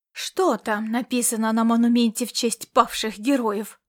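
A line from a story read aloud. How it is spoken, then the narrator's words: Restrained fury. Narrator (Russian): проговорил он со сдержанной яростью в голосе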